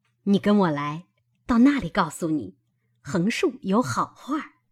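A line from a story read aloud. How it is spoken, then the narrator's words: Laughing. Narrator (Chinese): 他嫂子笑道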